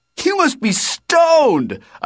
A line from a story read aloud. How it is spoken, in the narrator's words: I shouted